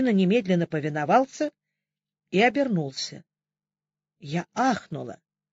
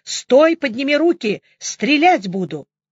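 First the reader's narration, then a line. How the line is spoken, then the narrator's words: Shout. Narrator (Russian): крикнула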